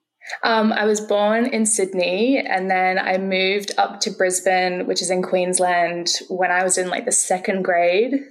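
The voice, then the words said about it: Australian accent. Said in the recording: “accent ... is, of course, Australian”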